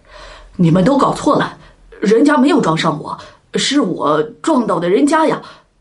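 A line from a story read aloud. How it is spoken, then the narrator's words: Angry shout. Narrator (Chinese): 唐佐这才回过神来，可他愤怒的叫道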